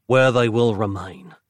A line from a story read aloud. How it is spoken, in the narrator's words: Nick vowed, breathing a deep sigh of relief